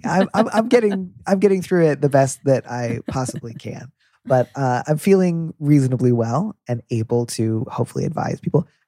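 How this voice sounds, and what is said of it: Stuffy, congested nasal voice. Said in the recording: “sounds really stuffy, you're right. I'm stuffed up. I have a cold... all my B's sound like D's and vice versa”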